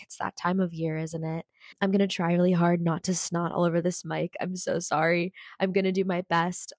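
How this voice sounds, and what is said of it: Sick-sounding voice. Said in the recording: “I don't know if you can tell in my voice, but I'm feeling a little bit under the weather. I'm feeling a little sick... I don't really know if my voice sounds sexy right now, but it's definitely sick.”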